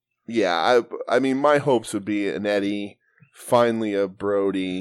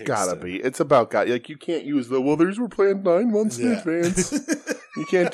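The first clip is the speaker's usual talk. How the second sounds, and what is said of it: Imitates another person's voice. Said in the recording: “my Jerry Padauer impression. ... Very good.”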